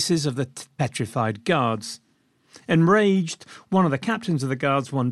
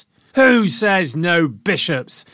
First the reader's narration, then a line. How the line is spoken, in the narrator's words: the crowd roared back